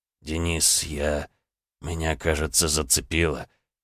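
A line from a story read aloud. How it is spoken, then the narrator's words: Weak dazed whisper. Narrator (Russian): Цесаревич стоял на том же самом месте и, посмотрев на меня слегка затуманенным взглядом, качнулся и прошептал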